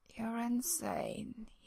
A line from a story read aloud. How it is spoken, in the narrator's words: mumbles